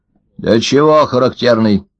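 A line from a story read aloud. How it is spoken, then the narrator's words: Stern question, old man. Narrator (Russian): строго спросил старик Ложкин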